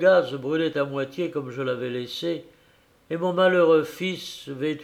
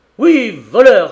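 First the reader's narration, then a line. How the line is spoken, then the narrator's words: Shouted in fury. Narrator (French): criai-je, fou de rage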